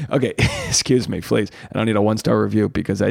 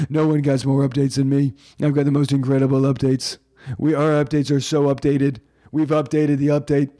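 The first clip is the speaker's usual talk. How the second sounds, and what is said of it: Imitates another person's voice. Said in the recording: “I do a bad impression of Trump”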